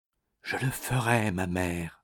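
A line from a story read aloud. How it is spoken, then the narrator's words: Whisper. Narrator (French): dit Béatrix dans un chuchotement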